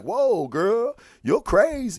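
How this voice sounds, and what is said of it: Poor impression of a film character. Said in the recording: “that's my Lando Calrissian impersonation. It's pretty bad.”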